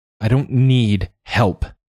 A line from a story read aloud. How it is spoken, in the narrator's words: snapped